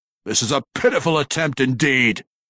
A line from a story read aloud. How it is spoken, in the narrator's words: Kemp roared